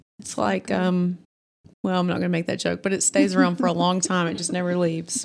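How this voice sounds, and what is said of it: Alabama Southern accent. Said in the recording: “I'm from Alabama, too. And your accent... Just makes me feel at home.”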